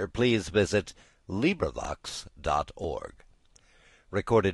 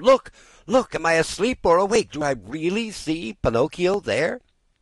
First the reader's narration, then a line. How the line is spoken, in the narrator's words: yelling wildly